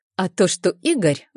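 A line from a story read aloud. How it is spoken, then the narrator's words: Stammering. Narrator (Russian): запинается Вика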